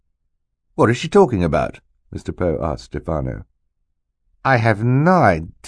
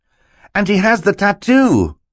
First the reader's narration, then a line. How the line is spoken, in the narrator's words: Klaus cried